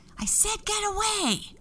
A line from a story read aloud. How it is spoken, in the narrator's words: she yelled